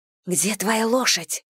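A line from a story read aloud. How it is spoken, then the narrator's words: Whisper. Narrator (Russian): прошептала я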